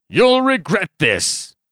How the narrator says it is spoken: he shouted

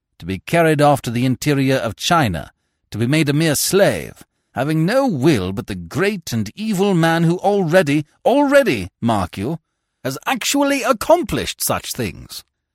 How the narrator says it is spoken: he said harshly

